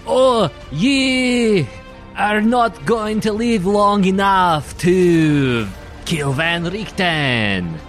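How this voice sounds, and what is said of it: Fantasy dwarf accent, sounding French. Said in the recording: “her best dwarf impression ... He's very French.”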